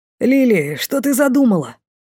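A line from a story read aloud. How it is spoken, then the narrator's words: Exclamation. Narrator (Russian): воскликнул Лей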